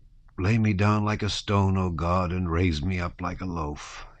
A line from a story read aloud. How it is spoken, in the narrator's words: he muttered